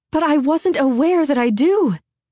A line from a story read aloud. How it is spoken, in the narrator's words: Hester cried out